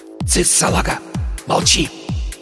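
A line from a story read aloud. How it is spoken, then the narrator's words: Hiss. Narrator (Russian): Прошипел Порошок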